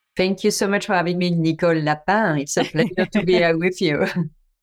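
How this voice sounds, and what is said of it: Beautiful foreign accent. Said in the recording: “does have a beautiful accent.”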